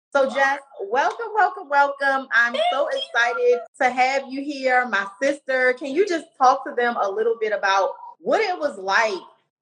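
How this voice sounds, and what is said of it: Thick Baltimore accent. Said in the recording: “the Baltimore accent's very thick, okay? Because we are both from Baltimore ... laughing at how I say two and you laughing at how I say you”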